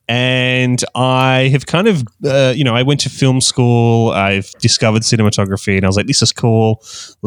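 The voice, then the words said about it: Australian accent. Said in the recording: “I'm from Australia, hence the Australian accent.”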